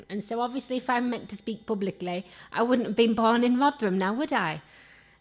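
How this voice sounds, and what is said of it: Yorkshire English accent. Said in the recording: “I don't want to shake off the Yorkshire accent ... still struggled with this Yorkshire accent”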